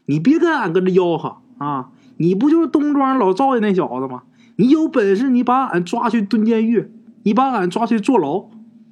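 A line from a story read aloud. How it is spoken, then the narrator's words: Fearless woman shouting. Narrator (Chinese): 四嫂他不怕，老娘们撒气婆不怕，跟这警察喊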